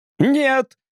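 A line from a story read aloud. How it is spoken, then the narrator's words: Shouted. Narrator (Russian): крикнул Тримбл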